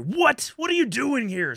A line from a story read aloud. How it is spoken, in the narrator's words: screams Sully